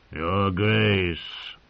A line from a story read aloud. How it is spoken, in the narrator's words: he growled